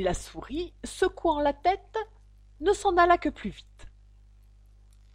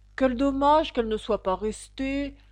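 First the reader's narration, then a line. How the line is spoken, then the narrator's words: Parrot sighing. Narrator (French): dit en soupirant le lori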